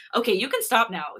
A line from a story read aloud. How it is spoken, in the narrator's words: Hee-sung says